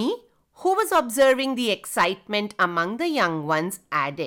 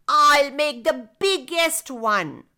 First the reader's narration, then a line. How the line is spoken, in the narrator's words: Nutty exclaimed